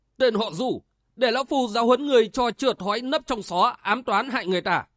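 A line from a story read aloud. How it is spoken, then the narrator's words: Bold shout. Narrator (Vietnamese): Hắn liền đánh bạo quát lên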